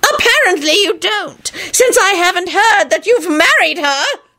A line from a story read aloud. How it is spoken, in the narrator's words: John shouted triumphantly